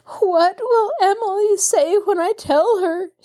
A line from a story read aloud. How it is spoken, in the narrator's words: she moaned over and over